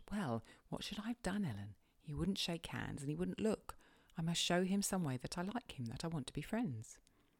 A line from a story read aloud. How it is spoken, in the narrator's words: she blushed and whispered